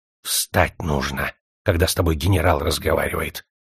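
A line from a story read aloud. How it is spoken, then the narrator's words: Sudden hiss. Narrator (Russian): прошипел вдруг Звездоний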